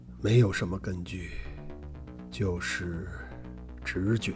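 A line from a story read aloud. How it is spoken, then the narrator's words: Hesitant murmur. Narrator (Chinese): 罗非无言以对，愣了片刻，才喃喃说道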